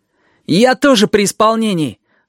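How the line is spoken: Snapping, almost cheerful. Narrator (Russian): огрызнулся Данилка почти весело

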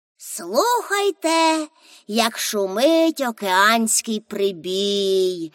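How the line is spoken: Sleepy voice. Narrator (Ukrainian): сонним голосом мовила Пеппі

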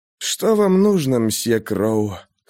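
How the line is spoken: Hoarse, weak whisper. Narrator (Russian): хрипло прошептал Рафаэль, чувствуя, как отмирают части его тела

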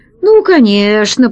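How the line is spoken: Grumbling. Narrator (Russian): проворчал Гайдо

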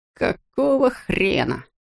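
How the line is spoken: Muttered. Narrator (Russian): пробормотал Роми

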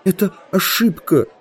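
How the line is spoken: Whimpering. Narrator (Russian): захныкал я

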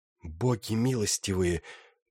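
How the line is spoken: Muttered. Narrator (Russian): пробормотала она

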